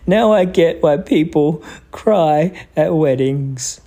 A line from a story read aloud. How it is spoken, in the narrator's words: Clancy sobbed